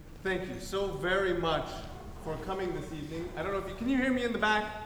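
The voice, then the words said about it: Loud projecting teacher voice. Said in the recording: “I've been practicing my teacher voice.”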